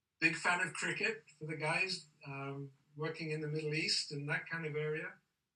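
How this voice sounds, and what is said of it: Faded English accent. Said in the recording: “you can tell by my accent, I'm not American. My accent's got a little bit thin now ... born in England”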